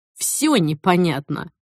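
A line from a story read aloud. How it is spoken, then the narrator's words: Clipped, emphatic. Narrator (Russian): отчеканил он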